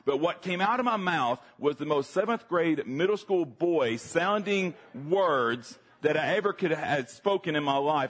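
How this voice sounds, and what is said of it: Deeper voice, Southern US accent. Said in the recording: “you hear my voice now, it's a little bit deeper with the southern accent and all”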